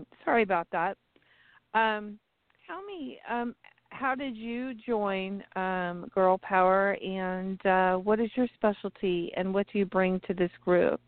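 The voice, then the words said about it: Strained, fading voice. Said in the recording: “my voice is kind of going”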